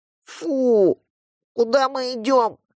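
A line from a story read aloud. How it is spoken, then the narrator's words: Nasal girl, nose pinched. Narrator (Russian): гнусаво спросила девочка из-за зажатого пальцами носа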